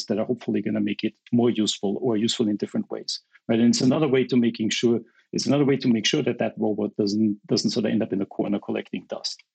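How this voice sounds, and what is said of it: Austrian accent. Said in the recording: “They've no doubt detected a lovely Austrian accent.”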